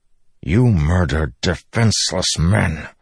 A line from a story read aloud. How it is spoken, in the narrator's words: Dalinar said through gritted teeth